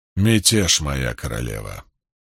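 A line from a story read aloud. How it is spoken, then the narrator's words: Even, level tone. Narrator (Russian): произнес лейтенант ровным тоном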